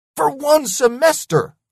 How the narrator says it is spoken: I yelled

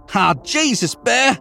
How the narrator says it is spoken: I shouted over the crashing

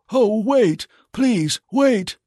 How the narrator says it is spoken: cried Carl, as all his courage fled from him

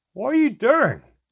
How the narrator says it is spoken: Handown cried

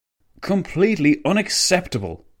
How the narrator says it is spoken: the Italian premier spat

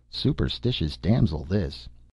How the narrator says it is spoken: He muttered under his breath

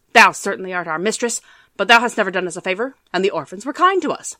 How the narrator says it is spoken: barked the dogs

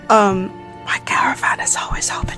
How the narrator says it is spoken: sort of like whispers

